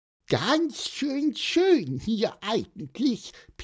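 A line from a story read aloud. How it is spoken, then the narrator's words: Squeaky male voice. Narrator (German): piepste er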